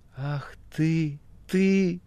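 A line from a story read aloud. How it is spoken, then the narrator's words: Whisper. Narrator (Russian): шептала Маргарита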